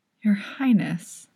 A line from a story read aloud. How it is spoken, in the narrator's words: she whispers again